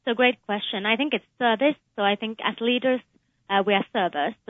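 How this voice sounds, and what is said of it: Slight foreign accent. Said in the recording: “You have a bit of an accent.”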